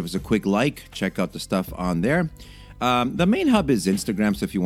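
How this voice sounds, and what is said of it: Usual voice. Nothing is said of it.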